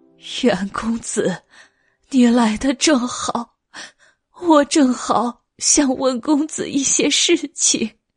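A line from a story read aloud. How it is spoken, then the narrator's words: Just stopped sobbing. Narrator (Chinese): 朱陈氏停止了抽泣，道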